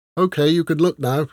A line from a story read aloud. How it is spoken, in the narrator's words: she said, her voice slightly muffled